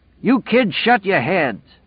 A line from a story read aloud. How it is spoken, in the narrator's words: yelled